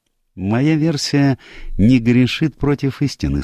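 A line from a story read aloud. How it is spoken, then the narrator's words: Calm reply. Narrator (Russian): спокойно ответил Пуаро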